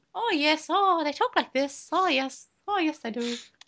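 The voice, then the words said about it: Put-on Irish accent. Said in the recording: “I can do a really good Irish accent. I'm basically Irish. ... May's accent made her indistinguishable from the average Irishman”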